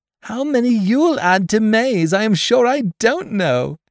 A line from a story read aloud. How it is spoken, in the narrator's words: said Dot, laughing